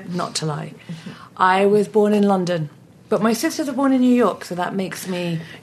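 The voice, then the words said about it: Foreign accent, not American. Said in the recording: “From your accent, people should know, not originally from this country.”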